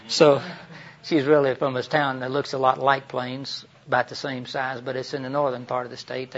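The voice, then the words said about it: Southern American accent. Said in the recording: “you picked up correctly that I'm really not from Maine ... you don't seem to be doing very well changing your accent ... didn't have little grits in my mouth”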